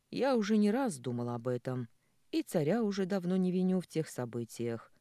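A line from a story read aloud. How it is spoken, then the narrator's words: Plain. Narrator (Russian): ответил отец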